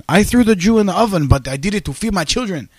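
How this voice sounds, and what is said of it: Mock German accent. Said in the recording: “I was trying to do a German accent ... My accents are completely like ... I used to be a little tighter at the accents”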